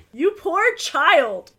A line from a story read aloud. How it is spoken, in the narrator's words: the lawyer exclaimed